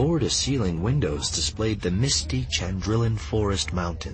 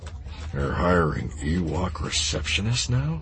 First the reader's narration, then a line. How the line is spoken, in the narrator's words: Han muttered under his breath